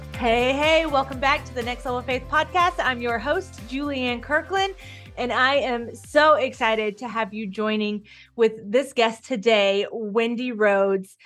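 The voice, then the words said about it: Congested, sick-sounding voice. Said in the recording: “you can kind of hear it in my voice, I'm recovering from a cold... all of the snot and coughing”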